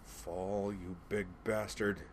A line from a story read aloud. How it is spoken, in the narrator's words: Stargirl growled